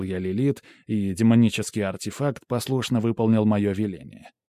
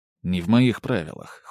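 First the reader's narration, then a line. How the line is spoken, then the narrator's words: Cold. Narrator (Russian): холодно сказал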